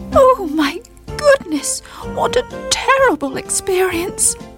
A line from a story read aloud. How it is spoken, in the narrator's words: she moaned